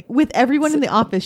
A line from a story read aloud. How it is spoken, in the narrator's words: she yelled so loud